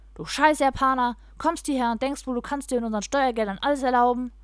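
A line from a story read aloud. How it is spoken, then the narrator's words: Loud shout over clattering dishes. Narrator (German): Auch wenn das klirrende Geschirr seine Aussage zum Teil übertönte, hat er laut genug geschrien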